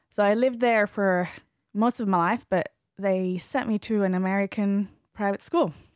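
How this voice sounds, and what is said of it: Mixed American, Australian, English accent. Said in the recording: “my accent comes from my American, Australian, English teachers... it's all mixed up... a bit of a weird accent”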